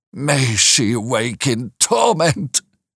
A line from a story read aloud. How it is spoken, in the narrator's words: he cried with frightful vehemence, groaning in a sudden paroxysm of ungovernable passion